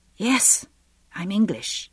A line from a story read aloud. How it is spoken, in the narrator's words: I said, croaking